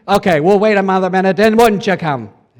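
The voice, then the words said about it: Poor imitation of a preacher's voice. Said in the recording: “You can almost hear in Billy Graham's voice ... That's a terrible impersonation”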